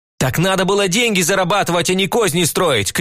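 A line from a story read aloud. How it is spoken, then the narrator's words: Shouted. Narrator (Russian): крикнул я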